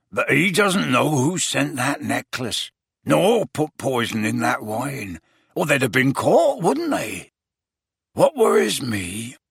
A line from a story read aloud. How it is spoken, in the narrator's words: said Hagrid, lowering his voice